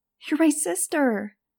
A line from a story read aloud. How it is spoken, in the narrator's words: she cried